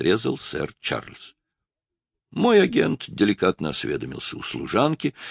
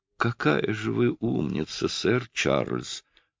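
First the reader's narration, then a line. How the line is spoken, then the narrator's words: Purring, encouraging. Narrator (Russian): промурлыкала Алисия Демерс, чтобы поддержать его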